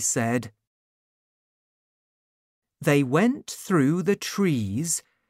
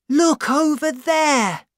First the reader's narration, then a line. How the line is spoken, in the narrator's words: cried Tau